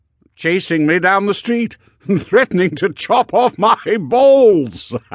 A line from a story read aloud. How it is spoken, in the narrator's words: His chuckles turned to laughter as he recalled the scene